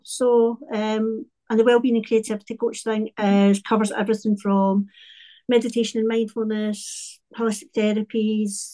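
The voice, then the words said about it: Scottish accent. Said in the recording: “As you can probably hear from my accent, I'm from Scotland, from a town called Paisley, just about 10 minutes outside of Glasgow.”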